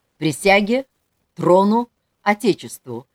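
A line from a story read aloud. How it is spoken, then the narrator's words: Crisp clipped. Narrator (Russian): отчеканил Ерандаков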